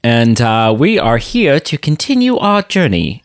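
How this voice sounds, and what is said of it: English accent, C-3PO-like robot voice. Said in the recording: “it just became C-3PO there... I was going to do an English accent, which I guess C-3PO is... the first note that came out was very like Anthony Daniels-esque”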